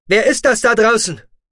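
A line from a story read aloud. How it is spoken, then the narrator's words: Shouting over radio. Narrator (German): rief Roden über sein wieder zu Leben erwachtes Funkgerät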